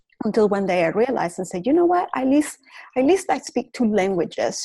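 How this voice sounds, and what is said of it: Venezuelan Spanish-accented English. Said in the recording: “I went to law school in Venezuela ... racist comments about my accent ... about not speaking perfectly”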